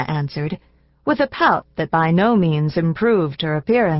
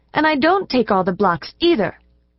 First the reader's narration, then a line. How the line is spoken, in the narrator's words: retorted Anna angrily